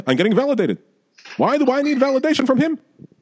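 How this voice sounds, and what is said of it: Jackie Mason impression. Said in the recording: “Your Jackie Mason, is truly the greatest impersonation you've ever done.”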